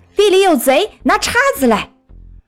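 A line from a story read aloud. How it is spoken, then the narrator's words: Shouting. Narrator (Chinese): 奔先生在喊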